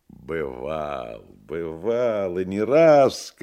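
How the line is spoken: Laughing shout. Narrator (Russian): кричал он, смеясь

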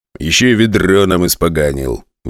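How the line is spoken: Grumbling. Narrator (Russian): ворчал техник

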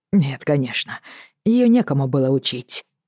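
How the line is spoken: Muttering to himself. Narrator (Russian): пробормотал он как будто про себя

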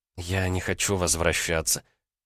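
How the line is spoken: Whispering. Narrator (Russian): прошептала она

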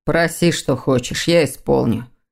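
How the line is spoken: Muffled. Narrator (Russian): глухо проговорил незнакомец

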